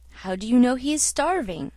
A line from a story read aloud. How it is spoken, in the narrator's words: asked the doctor